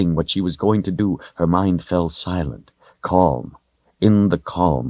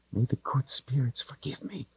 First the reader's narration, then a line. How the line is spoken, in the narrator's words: she whispered